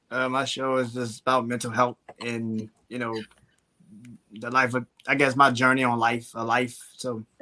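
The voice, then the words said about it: Slight regional American accent. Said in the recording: “I hear a little accent in you. ... Definitely from Baltimore. ... You was thinking up north somewhere, huh? ... Like Jersey or something.”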